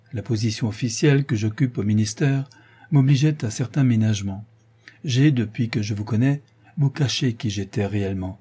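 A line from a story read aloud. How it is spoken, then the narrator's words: Restrained voice. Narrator (French): reprend monsieur de Francheville d'une voix contenue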